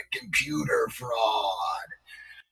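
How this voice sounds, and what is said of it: Gravelly voice. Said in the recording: “in this like gravelly voice”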